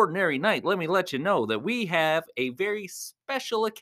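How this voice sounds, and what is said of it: Usual voice. Nothing is said of it.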